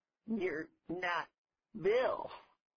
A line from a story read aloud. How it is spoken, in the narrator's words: burst into giggles